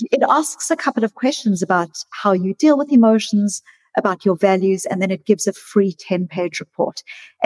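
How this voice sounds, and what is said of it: South African accent. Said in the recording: “with a South African accent”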